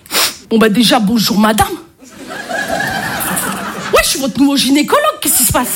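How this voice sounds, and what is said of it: Marseille French accent. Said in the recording (French): “je suis marseillaise ... l'accent marseillais”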